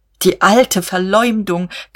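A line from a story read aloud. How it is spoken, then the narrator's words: Shrieking. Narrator (German): kreischte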